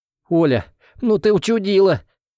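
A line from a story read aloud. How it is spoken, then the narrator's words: Smiling through tears. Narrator (Russian): Улыбнулся Лаврентий сквозь слезы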